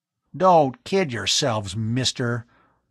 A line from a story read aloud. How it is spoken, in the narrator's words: Bud put in with a snarl